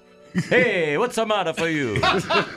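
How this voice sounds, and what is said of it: Put-on Italian accent. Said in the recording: “Italian is always going to be my default accent for the Pope.”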